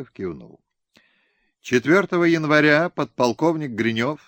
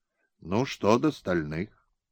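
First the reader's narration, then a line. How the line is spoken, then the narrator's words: Gentle coaxing question. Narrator (Russian): Как бы подталкивая смутившегося офицера, мягко спросил Бибиков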